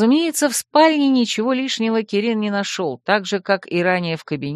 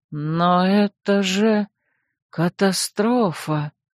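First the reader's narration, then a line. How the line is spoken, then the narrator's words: Hollow, muffled. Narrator (Russian): глухо произнес мой советник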